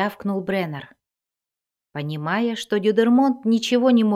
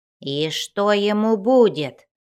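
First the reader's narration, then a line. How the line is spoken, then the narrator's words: Puzzled grumbling. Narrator (Russian): проворчал Бреннер, которому хотелось найти хоть каплю здравого смысла в столь странном поведении калимшанцев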